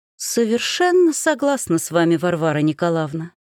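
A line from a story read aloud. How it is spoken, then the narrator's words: Purring. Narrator (Russian): промурлыкала Ольга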